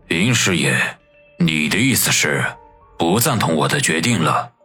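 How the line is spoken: Cold. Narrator (Chinese): 孙卫良 冷冷的说道

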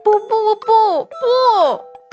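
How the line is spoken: Babbling cries. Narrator (Chinese): 嘴里还咿咿呀呀的叫着

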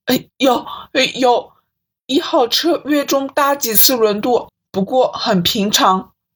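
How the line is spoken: Flustered stammering. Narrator (Chinese): 职员一脸慌张，结结巴巴地说

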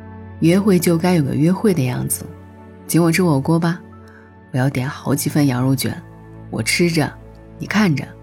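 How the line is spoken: Laughing. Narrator (Chinese): 他笑着说

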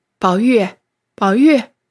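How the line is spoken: Laughing, calling close by. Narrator (Chinese): 和尚哈哈大笑…在宝玉耳边叫道

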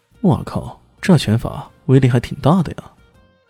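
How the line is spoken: Inner muttering. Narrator (Chinese): 李迅……心里忍不住嘀咕

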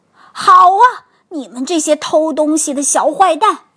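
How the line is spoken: Loud roar. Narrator (Chinese): 一声大吼

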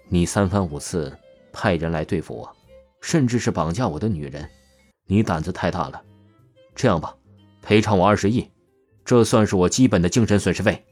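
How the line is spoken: Calm, indifferent. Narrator (Chinese): 淡淡说道

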